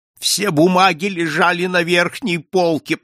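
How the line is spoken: Moaning. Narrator (Russian): простонала госпожа Монпарно

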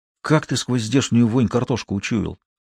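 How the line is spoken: Surprised whisper. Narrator (Russian): также шепотом удивился Смеляков

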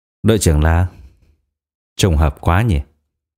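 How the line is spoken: Cold. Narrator (Vietnamese): A Hoa lạnh lùng nói

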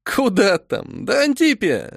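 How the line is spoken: Laughing. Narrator (Russian): рассмеялась Милена

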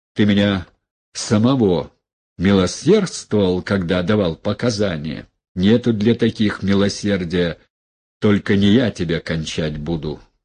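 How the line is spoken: Plain. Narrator (Russian): сказал

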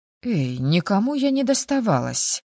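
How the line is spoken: Indignant outburst. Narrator (Russian): возмущенно вскинулась я

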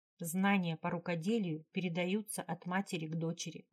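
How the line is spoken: Plain. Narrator (Russian): ответила Вельва

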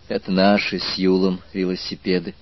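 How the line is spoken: Sad telling. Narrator (Russian): грустно поведала она аспиранту

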